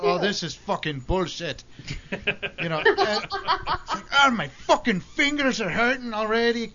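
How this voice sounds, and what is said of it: Irish accent. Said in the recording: “I slip into an Irish accent.”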